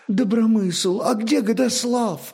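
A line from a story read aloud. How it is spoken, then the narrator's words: Bewildered question. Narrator (Russian): спросила растерянно княгиня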